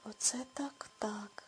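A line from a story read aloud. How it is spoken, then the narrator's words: Quiet. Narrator (Ukrainian): тихо промовила Гретхен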